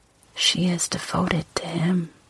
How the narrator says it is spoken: she whispered

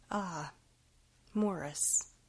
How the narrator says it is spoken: his father began nervously

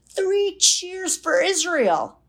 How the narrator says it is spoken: he bawls out of him

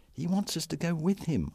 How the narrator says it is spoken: I muttered

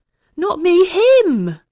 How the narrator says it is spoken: Ollie wailed

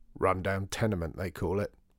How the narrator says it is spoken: growled Mr

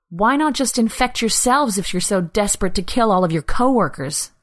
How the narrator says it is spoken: Anna spat out, anger rising through the numbness she'd been living in for weeks

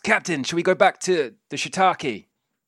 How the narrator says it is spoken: rowing the boat, shouts

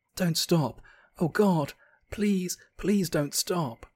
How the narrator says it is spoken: Jessica gasped

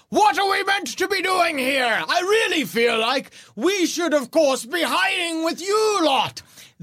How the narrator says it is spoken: Gorob yells

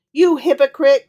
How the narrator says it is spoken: cried Miriam wrathfully

